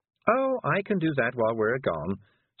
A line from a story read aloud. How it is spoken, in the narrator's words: said Miss Level cheerfully